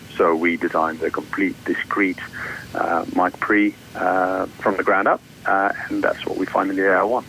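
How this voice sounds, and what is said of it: Flemish Belgian accent. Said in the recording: “you have an accent, and I'm kind of guessing that you're from the Netherlands ... I'm just next door, Belgium ... so you're Flemish”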